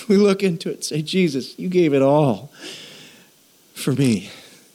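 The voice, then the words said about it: Emotional, choked-up speech. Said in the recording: “Sorry for getting emotional, but man, I can't read that line without going”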